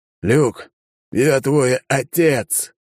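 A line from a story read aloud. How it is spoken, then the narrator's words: Hoarse voice. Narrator (Russian): хриплым голосом произнес Алекс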